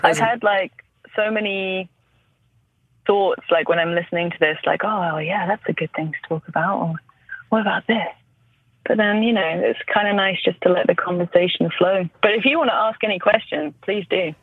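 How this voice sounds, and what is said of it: British accent. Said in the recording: “your accent. I generally do find UK accents so pleasing”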